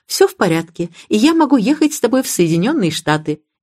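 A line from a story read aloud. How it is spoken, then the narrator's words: Wives speaking cheerfully. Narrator (Russian): Жены приобрели привычку весело говорить мужьям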